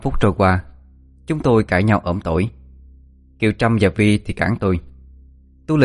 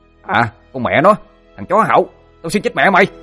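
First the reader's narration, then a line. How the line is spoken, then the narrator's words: Furious shout. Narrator (Vietnamese): thằng Sinh quát lên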